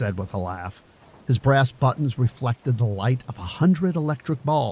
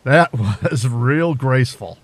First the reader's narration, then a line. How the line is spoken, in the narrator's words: added with a laugh